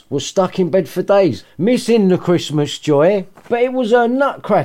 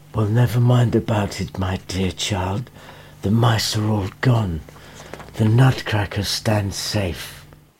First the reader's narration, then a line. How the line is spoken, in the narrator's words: the doctor said softly